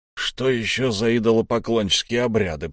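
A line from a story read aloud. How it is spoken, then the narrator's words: Grumbling out of habit. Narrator (Russian): проворчал Лехмусар, но скорее по привычке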